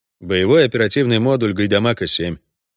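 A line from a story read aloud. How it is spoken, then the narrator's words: Dry reply. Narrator (Russian): сухо ответил ведьмак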